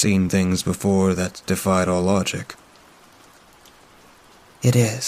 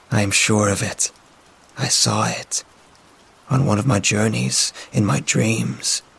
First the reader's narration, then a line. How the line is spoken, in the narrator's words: muttered